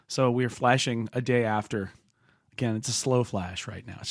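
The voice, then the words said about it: Hoarse, sick-sounding voice. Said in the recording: “A little sick, a little under the weather, kind of losing my voice.”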